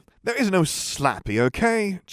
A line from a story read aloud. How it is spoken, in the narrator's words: Jim snapped